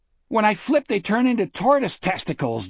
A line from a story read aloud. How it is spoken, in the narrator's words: Jack said, and laughed wildly, hysterically